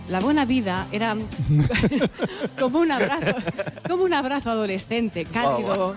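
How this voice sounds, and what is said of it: Parody of Miki Otero's voice. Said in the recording (Spanish): “ahora me voy a poner como Miki Otero ... ¿Le gusta parodiarme?”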